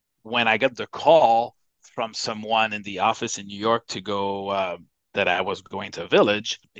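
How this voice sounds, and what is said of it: Non-native English accent. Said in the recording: “it's probably obvious even today by my accent, English is not my first language”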